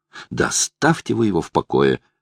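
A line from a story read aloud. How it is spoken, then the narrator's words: Irritated. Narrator (Russian): раздраженно бросила Лара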